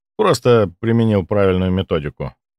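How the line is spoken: Dry reply. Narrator (Russian): сухо ответил я

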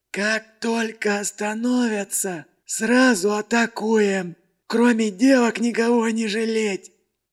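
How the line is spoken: Hoarse wheeze. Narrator (Russian): Просипел главарь

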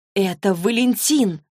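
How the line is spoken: Shocked exclamation. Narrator (Russian): потрясенно воскликнула Клэри

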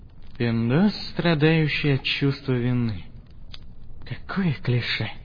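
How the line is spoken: Quiet muttering. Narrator (Russian): Негромко пробормотал автор

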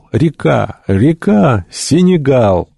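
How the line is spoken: Joyful shout. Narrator (Russian): доктор радостно закричал

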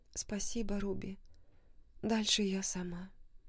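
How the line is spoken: Sad. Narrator (Russian): печально произнесла она

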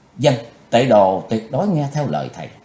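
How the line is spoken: Grudging, obedient. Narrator (Vietnamese): Mặc dù trong lòng hãy còn hậm hực chí tôn, nhưng nàng vẫn vâng lời nói

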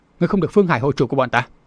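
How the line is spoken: Shouted. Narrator (Vietnamese): Mã Đằng quát

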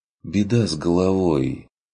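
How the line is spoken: Sighing. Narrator (Russian): вздохнул Курт

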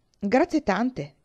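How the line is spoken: Exclaiming. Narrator (Italian): esclamò

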